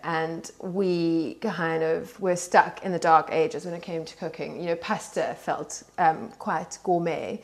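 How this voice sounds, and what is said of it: South African accent. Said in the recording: “as you can tell from my accent, I grew up in um, in South Africa”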